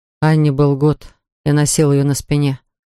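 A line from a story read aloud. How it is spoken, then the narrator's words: Plain. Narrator (Russian): сказал Поль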